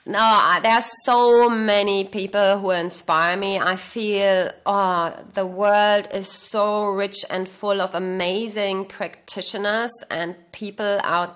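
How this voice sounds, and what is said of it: Slight German accent. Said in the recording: “as you can hear, probably I'm born in Germany ... my accent is still a little bit like that”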